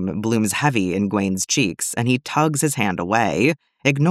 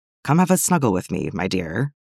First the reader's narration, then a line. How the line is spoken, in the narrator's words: he whispers, breath ghosting against Gawain's neck